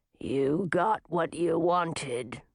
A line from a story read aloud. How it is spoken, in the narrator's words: growled the beast